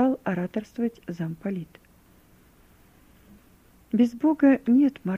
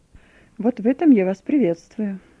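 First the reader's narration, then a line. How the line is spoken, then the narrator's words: Exclaiming. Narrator (Russian): воскликнул замполит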